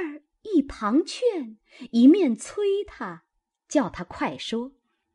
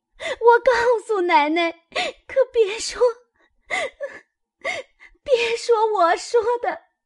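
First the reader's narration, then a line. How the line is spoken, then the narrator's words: Frightened girl crying, pleading. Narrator (Chinese): 吓得那丫头一行躲一行哭求道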